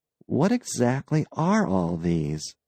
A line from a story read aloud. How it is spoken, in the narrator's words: He murmured